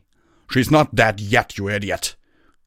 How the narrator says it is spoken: snarled

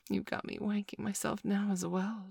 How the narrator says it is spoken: she breathed

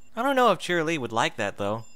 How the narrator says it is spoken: Twilight said with a chuckle

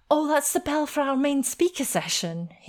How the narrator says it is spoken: he exclaimed

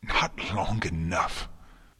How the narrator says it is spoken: Twilight gasped

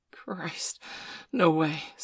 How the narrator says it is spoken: Steph gasped

